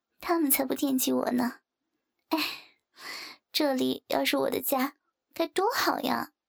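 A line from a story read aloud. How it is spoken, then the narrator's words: Sighing. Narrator (Chinese): 小美沉沉地嗯了一声，叹道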